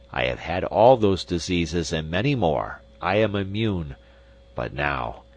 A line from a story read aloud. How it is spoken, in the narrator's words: said the sheik scornfully